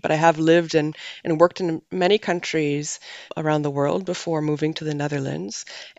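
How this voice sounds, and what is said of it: Canadian English accent. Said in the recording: “Maybe you noticed from my accent, I'm not a Dutch national ... I'm from Canada originally”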